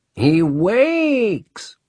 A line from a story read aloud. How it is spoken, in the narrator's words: one of them cried in a gruesomely coquettish voice